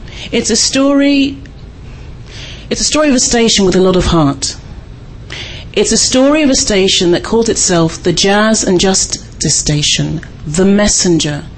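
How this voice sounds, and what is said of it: Non-local accent. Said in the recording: “As you can hear from my accent, I'm not from these parts.”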